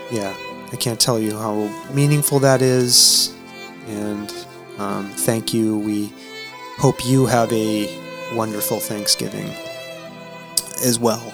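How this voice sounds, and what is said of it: Choked-up, emotional voice. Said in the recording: “I'm a little choked up over here”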